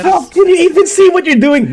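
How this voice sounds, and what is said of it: Complaining cartoon character voice. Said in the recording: “my impression of Sokka, like, complaining”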